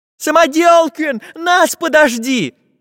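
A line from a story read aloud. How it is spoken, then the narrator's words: Children shouting in chorus. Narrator (Russian): хором закричали ребята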